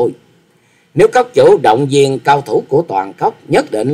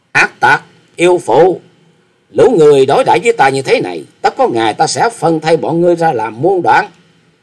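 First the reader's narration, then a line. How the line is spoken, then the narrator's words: Loud scolding. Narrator (Vietnamese): Chàng lớn tiếng mắng rằng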